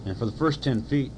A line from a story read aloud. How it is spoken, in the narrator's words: Tiger said happily to himself